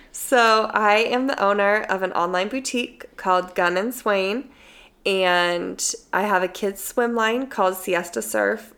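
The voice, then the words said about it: Husky voice with a cold. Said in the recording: “I have a little bit of a cold, so I sound weird ... This is like my a phone husky operator. Voice.”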